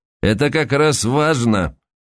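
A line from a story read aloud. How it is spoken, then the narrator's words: Dry tone. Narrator (Russian): сухо произнес Куняев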